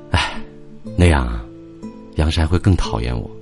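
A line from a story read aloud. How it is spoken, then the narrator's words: Pained sigh. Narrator (Chinese): 平原几乎是痛苦的叹了口气，他说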